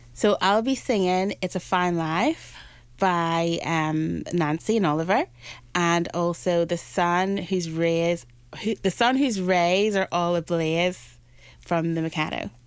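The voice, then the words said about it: Northern Irish accent. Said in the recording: “the Northern Irish accent.”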